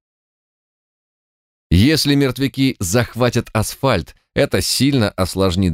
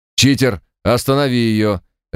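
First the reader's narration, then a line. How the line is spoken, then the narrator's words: Barked over radio. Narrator (Russian): рявкнула рация голосом Марта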